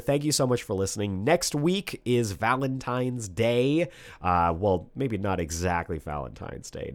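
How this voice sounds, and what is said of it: Hoarse, failing voice. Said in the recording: “I'm sure you can tell my voice is going out... it is wreaking havoc on my vocal cords”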